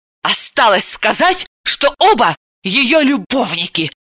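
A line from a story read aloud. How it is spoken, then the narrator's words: Furious hiss. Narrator (Russian): Зверея прошипела Далила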